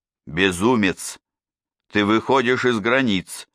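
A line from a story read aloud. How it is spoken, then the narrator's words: Cheerful, seething inside. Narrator (Russian): сказал Бенвенуто весело, хоть в душе у него все клокотало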